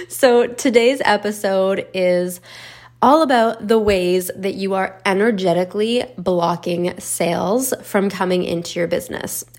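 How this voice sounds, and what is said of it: Slightly raspy voice. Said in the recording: “I am sick right now, so my voice is a little raspy.”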